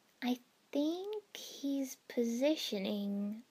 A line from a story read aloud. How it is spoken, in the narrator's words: I said slowly